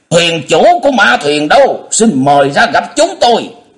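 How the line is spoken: Angry demanding shout. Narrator (Vietnamese): La Liên A Tôn không sao nhịn được, bỗng giận dữ quát hỏi

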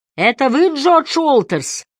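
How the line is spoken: Shouted into ear. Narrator (Russian): прокричал Харри в ухо человеку в желтом защитном шлеме

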